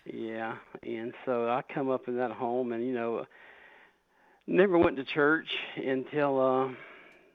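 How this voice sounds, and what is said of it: Southern US accent. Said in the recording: “You recognize that little accent there ... I'm a Southerner”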